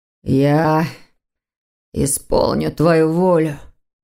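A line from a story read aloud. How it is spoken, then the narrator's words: Through gritted teeth. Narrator (Russian): сквозь зубы, процедил незнакомец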